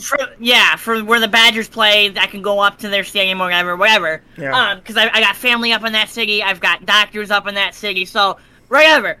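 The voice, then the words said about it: Wisconsin accent. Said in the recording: “I don't far think anybody from... was able to tell that from your accent,”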